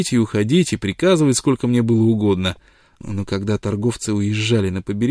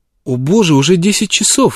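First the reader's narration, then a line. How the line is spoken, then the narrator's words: Sudden exclamation. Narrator (Russian): внезапно воскликнула мисс Шовел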